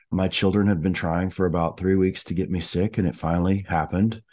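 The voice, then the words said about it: Sick-sounding voice. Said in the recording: “As you can probably tell from my voice, I'm a little bit under the weather.”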